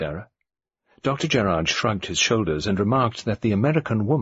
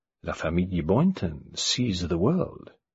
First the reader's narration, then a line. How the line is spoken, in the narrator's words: Gerard murmured